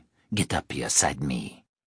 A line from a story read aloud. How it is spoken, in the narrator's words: Malcolm said quietly